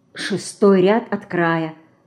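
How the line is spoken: Whisper. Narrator (Russian): шепнула ей Динка

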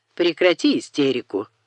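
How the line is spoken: Cold. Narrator (Russian): холодно сказал Бойль

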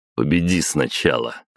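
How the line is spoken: Skeptical snort. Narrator (Russian): хмыкнул я

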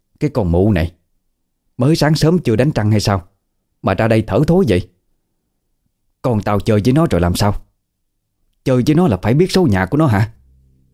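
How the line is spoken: Angry scolding. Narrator (Vietnamese): Bà Hằng tức giận, chửi

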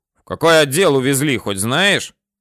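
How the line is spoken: Barked. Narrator (Russian): гаркнул

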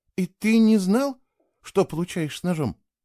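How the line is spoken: Soft question. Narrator (Russian): мягко спросила Кейла

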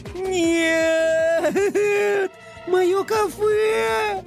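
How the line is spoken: Bitter sobbing. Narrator (Russian): Горько зарыдала принцесса

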